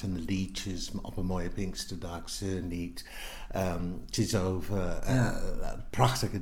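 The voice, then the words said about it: English accent speaking Dutch. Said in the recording (Dutch): “je hebt een heel licht accent ... dat was een understatement ... uit Engeland ... Newcastle”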